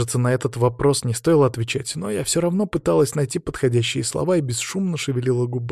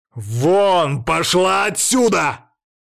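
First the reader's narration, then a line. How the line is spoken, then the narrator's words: Yelling. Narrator (Russian): заорал Ярослав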